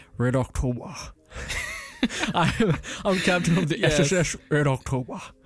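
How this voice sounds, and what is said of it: Imitates another person's voice. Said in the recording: “do you have a good Sean Connery accent? ... That's not bad. That wasn't a bad one, dude.”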